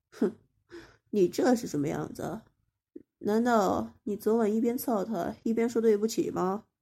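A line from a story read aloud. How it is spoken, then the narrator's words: Scornful sneer. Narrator (Chinese): 江元白嗤之以鼻，冷笑着说道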